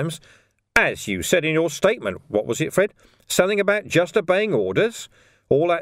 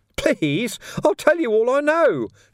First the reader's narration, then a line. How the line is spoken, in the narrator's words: Ferret squeaked